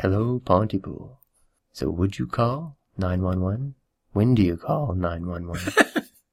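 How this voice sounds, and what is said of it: Imitates a radio host's voice. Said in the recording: “Is that your radio voice? ... That was me trying to do Stephen McHattie's radio voice.”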